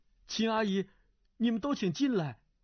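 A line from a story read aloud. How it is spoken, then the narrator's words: Calling out. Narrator (Chinese): 段誉叫道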